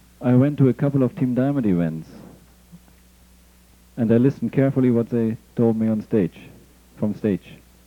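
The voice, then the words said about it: Non-native English accent. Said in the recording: “my accent is different”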